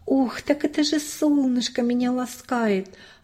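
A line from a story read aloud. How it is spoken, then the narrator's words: Joyful inner thought. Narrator (Russian): радостно подумала про себя Настенька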